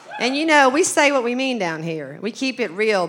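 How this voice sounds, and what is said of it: Southern Arkansas accent. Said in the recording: “insult my accent ... I kind of had a mouth from the South.”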